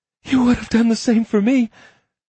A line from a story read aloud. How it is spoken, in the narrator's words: she said breathlessly, when he let her breathe again